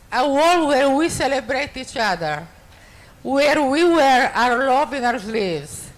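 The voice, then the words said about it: Italian accent. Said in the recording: “I love the Italian accent ... It's a really sexy accent”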